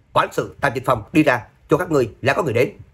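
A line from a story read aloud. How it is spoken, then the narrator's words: Sudden loud shout outside. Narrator (Vietnamese): một tiếng hét lớn lại đột nhiên từ ngoài cửa vang lên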